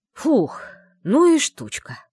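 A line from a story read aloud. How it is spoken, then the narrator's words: Exhaled, admiring and relieved. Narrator (Russian): Выдохнул одновременно с восхищением и облегчением лорд Мэшем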